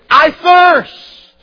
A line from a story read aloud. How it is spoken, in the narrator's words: cried